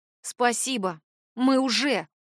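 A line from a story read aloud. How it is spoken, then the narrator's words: Grumble. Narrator (Russian): буркнула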